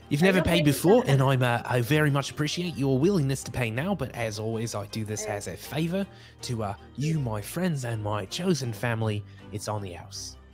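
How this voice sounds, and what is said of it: Character's put-on accent. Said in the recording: “Oh gosh, where'd my accent go?”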